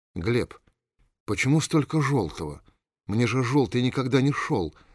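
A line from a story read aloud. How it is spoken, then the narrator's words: Timid voice. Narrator (Russian): робко проговорила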